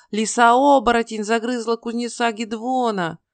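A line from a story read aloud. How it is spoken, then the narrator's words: Shouting. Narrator (Russian): просто кричала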